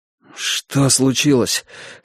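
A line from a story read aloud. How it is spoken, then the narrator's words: Hoarse breathless gasping. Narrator (Russian): хрипло выдохнул я пару раз, хватая ртом воздух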